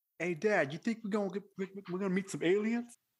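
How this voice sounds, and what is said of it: Weak put-on New York accent. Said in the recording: “that was my attempt at a New York accent... that wasn't good... New York street”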